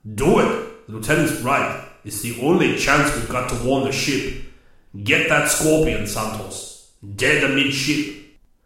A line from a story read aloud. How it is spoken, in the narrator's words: Koa bellowed